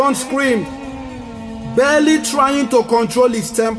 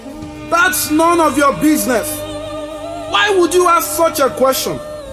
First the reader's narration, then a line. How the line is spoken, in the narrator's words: shouted